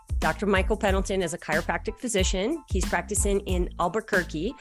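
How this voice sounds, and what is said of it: Canadian accent with Russian tinge. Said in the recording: “I love your accent. I love the way you said Albuquerque. ... It's such a Canadian accent. ... It's like Canadian / Russian mixed in there. And then some people think it's French.”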